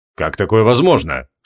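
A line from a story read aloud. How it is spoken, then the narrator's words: Calm question. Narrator (Russian): спокойно спросил лорд Гвайдеон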